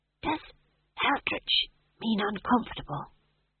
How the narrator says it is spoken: He hissed

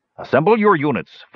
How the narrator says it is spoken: Flint barked

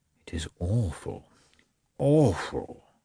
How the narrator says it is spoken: he muttered

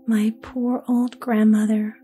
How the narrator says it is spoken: sighed Gerda

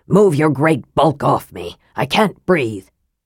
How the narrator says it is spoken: said Raistlin testily

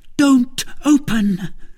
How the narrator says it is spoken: Milady cried from her window

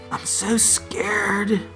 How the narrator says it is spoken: she whispered, her fear mixing with grief

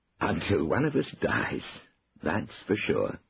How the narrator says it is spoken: said Cornelius with a chuckle

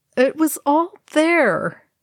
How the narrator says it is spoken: Legolas groaned

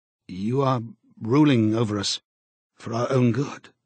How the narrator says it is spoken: he said feebly

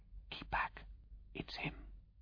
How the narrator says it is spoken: She whispered

